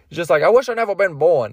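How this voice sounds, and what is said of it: Imitates Shrek's voice. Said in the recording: “my impression of Shrek”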